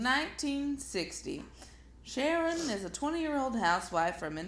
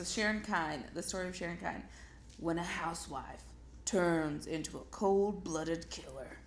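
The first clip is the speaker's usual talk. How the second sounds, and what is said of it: Dramatic movie announcer voice. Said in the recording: “I was going to do like a movie announcer voice. ... That really does sound like a Lifetime movie.”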